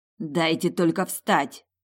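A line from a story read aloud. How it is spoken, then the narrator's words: Angry hiss. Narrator (Russian): прошипела я зло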